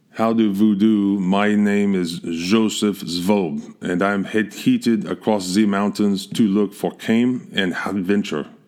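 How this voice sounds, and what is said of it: Heavy put-on German accent. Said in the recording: “this heavy German accent”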